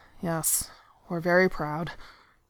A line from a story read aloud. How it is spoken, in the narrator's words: he muttered mechanically